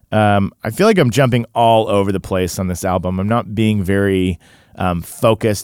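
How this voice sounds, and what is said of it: Tired, low-energy voice. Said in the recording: “I was out really, really late. You can hear it in my voice. You can hear it in my my energy.”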